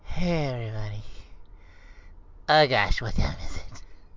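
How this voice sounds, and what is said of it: Imitates another person's unexcited morning voice. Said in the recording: “I'd like to do an imitation of you at 5 o'clock in the morning ... I sound even less excited than that in the morning”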